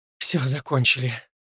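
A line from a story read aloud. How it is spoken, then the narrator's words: Breathed out. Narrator (Russian): выдохнула Инди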